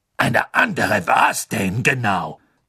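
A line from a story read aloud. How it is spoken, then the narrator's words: Cold question. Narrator (German): fragte Madame Maxime kalt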